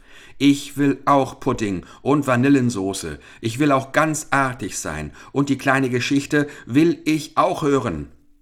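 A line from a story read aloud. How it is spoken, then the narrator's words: Shouting. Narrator (German): rief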